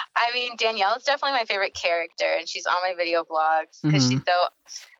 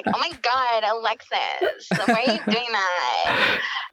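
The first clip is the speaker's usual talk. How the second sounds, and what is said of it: Impression of David from Schitt's Creek. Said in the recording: “I based her off of David from Schitt's Creek.”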